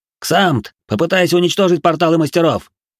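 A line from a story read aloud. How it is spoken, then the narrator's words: Swearing shout. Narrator (Russian): Сам выругался, крикнул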